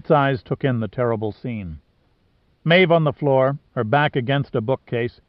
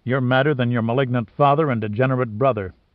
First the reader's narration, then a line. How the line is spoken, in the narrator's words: Pitt said coldly